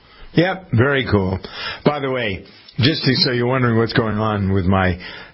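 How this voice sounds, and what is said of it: Clogged, congested-sounding voice. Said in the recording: “my voice gets cloggy”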